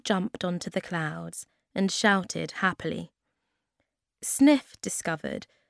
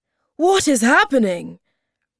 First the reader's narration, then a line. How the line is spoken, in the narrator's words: Moomin Troll shouted to his mother